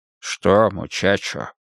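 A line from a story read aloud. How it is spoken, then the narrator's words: Soft question. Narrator (Russian): мягко спросил Уайерман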